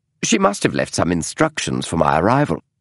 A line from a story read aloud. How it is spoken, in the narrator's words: he said quickly